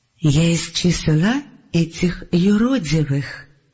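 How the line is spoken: Quiet. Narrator (Russian): тихо сказал Салафиил

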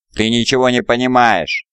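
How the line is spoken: Shout over battle noise. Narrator (Russian): крикнул Ларгар, перекрывая грохот боя

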